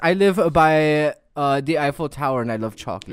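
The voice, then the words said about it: Exaggerated put-on French accent. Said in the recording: “your best impression of someone from France ... John does it better ... French person sounds more like ... Is that not German?”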